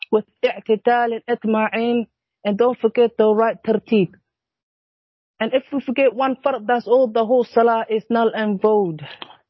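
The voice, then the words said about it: Speaks with a non-native accent. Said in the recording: “Was that your accent, or that did you say void? ... I think it's my accent ... I figured it was the accent”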